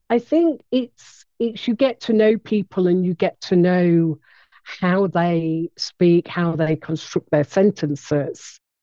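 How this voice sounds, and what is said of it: English accent with slight Nottingham hint. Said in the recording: “my accent, which does have a hint of broad Nottingham”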